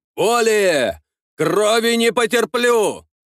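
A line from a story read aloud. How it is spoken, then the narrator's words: Pained commanding shout. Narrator (Russian): закричал Ростислав, вкладывая в силу голоса не только требование прекратить изготавливаться к бою, но и собственную боль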